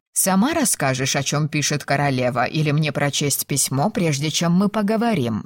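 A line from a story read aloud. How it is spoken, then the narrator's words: Plain question. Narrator (Russian): спросила она дочь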